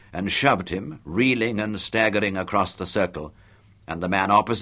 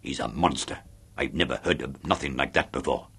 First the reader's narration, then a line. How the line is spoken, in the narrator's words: Chubby muttered beside me